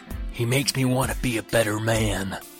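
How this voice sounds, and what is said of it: Weak Jack Nicholson impression. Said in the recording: “I gotta work on that impression. I have a better Jack Nicholson in me.”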